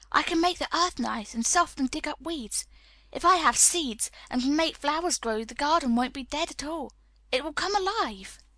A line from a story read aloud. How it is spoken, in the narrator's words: whispered